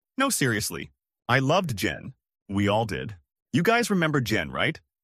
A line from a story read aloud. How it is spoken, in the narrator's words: he clarified